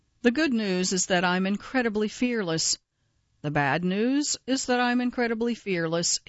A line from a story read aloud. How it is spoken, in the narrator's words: he said